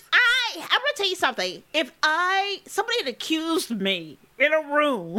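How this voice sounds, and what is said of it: Usual voice. Nothing is said of it.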